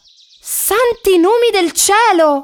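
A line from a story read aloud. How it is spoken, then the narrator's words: Astonished shout. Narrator (Italian): grida Lillo stupefatto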